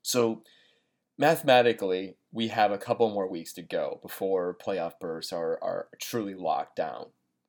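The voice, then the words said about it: Sick, slightly off, breathy voice. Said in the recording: “I'm actually feeling a little under the weather, so if I'm a little bit, my voice sounds a little bit off or I'm having a hard time breathing ... I'm not really amped up and excited. It's just that I'm got a flu bug.”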